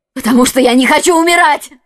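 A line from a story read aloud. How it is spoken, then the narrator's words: Desperate struggling exclamation. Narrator (Russian): воскликнула миледи, пытаясь вырваться из рук палача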